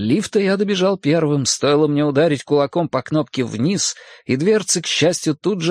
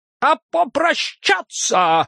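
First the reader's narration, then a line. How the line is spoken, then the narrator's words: Shouted out. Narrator (Russian): выкрикнул фон Зайфертиц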